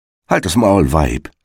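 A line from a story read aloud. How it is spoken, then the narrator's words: Plain. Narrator (German): sagte der Igel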